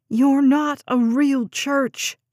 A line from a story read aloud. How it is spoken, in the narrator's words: she shouted